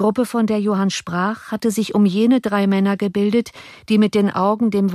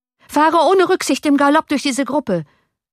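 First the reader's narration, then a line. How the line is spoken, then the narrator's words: Shouting. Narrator (German): schrie Johann dem Kutscher zu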